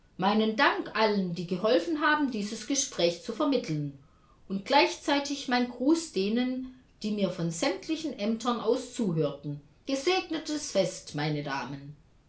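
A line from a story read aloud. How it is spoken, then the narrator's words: Calling down phone line. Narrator (German): Er rief in die Leitung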